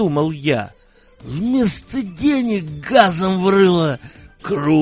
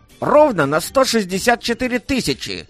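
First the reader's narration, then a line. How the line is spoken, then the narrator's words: Brisk, unhesitating report. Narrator (Russian): не моргнув глазом, бодро отрапортовал Халдей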